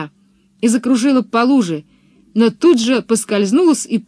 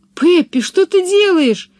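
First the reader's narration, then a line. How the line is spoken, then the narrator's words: Horrified exclamation. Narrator (Russian): в ужасе воскликнула Анника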